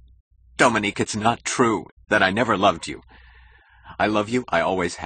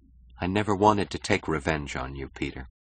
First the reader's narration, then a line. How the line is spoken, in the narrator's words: she said softly